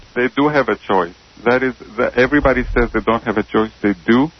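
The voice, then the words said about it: Noticeable accent. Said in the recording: “I think you're funny, just your accent and stuff.”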